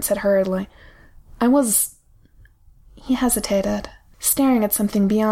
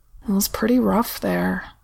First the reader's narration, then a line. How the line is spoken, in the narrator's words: he said quietly, awkwardly